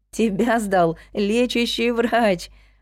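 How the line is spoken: Laughing. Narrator (Russian): рассмеялась я

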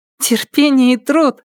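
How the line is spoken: Light laugh. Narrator (Russian): легонько засмеялась девушка

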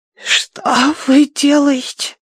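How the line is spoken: Hoarse rasp. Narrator (Russian): прохрипела она

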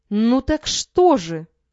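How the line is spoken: Sharp exclamation. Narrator (Russian): резко воскликнула Зина

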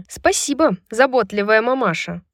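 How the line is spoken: Snapping retort. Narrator (Russian): огрызнулась Брайс

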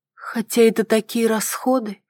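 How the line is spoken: Uncertain. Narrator (Russian): проговорила она неуверенно

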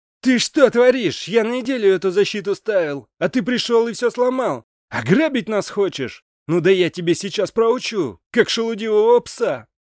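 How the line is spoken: Shouting. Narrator (Russian): закричал

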